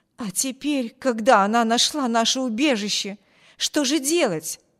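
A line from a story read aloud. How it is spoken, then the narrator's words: Exclaimed. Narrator (Russian): воскликнула женщина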